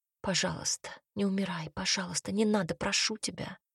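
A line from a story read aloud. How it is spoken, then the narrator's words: Pleading whisper. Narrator (Russian): Прошептала она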